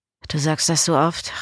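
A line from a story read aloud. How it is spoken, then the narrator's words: Murmured. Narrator (German): raunte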